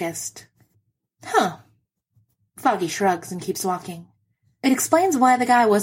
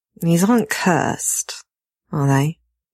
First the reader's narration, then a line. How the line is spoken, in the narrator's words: He asks wearily